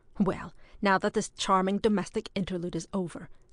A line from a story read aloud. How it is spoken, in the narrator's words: snapped that soldier